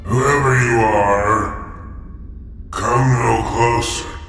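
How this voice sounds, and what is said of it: Deep booming voice. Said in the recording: “a deep voice boomed forth”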